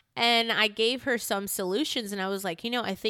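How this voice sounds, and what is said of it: Usual voice. Nothing is said of it.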